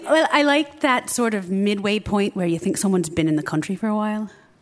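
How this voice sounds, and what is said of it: American voice with slight Irish tinge. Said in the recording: “Irish, I think. ... It's like kind of American, but not entirely. There's a tinge to it. ... Like kind of what you're doing? ... What I'm doing right now. ... you do a little bit of extra to it”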